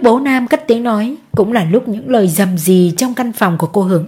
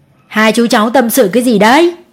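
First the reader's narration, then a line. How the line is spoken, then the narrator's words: Loud laughing man. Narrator (Vietnamese): ông cười to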